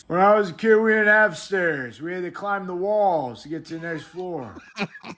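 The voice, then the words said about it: Imitates another person's voice. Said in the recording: “good fucking Biden impression”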